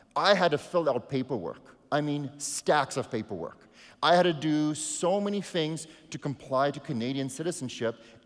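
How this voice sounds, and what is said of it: South African accent. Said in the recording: “you can hear by me speaking, I'm not from Canada ... it's my accent ... my South African citizenship”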